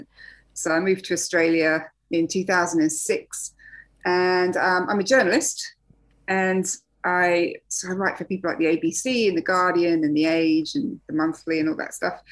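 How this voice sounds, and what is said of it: English accent. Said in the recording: “I'm English, as you can probably tell from the accent.”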